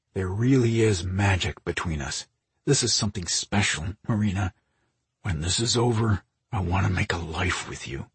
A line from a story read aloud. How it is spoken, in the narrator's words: said in a guttural tone